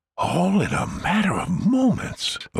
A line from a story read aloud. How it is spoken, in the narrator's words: the little astronaut whispered, astoundedly